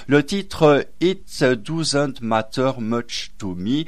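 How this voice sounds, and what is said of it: French-accented English pronunciation. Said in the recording (French): “Pardonnez-moi mon accent anglais, les amis.”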